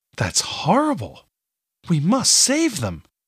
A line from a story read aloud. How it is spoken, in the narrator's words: cried